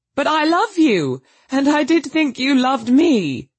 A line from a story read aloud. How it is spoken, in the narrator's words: in a burst of genuine devotion, he cried